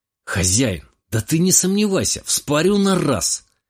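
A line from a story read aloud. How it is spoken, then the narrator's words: Tomcat's exclamation. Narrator (Russian): воскликнул кошак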